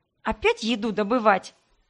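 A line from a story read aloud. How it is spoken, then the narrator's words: Snorting. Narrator (Russian): фыркнула я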